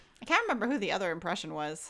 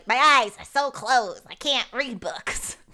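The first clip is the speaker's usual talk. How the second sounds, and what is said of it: Imitates another person's voice. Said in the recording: “That was my Gilbert impression.”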